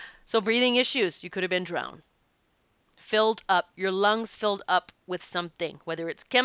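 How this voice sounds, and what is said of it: Usual voice. Nothing is said of it.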